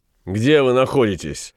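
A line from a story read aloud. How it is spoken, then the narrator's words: Mocking question. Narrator (Russian): насмешливо спросил Ван Конат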